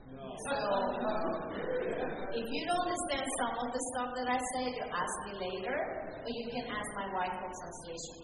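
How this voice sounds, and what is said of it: Strong foreign accent. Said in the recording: “I have a strong accent”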